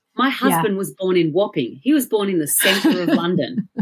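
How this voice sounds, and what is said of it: Strong Australian accent. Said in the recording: “which part of Australia are you guys from? My accent is so powerful”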